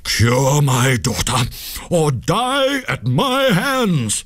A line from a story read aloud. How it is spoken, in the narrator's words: he cried in a terrible voice